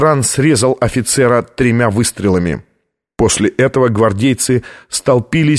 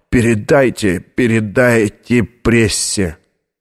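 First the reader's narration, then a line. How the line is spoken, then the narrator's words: Hoarse whisper. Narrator (Russian): хрипло прошептал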